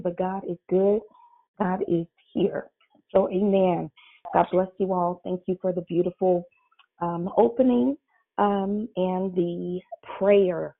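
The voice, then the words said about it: Shaky voice. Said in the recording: “Please forgive my voice. It's just a little shaky this morning”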